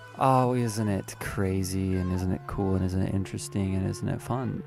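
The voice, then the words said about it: Speaking in vocal fry. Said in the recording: “me sitting in my bed right now doing vocal fry”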